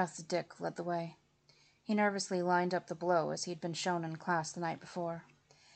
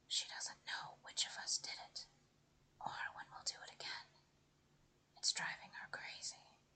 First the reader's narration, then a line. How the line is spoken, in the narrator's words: whispered